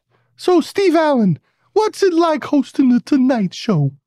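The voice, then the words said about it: High-pitched New York accent. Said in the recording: “I had a very high New York accent.”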